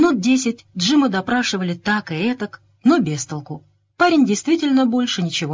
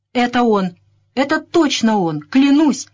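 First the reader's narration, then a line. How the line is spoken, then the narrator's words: Boy exclaiming. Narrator (Russian): воскликнул мальчишка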